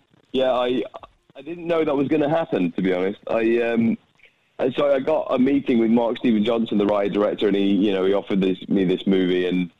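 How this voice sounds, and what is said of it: British English accent. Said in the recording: “his British accent”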